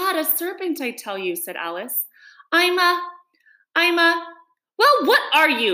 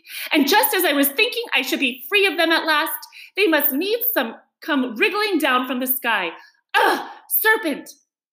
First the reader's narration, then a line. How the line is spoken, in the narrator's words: continued the pigeon, raising its voice to a shriek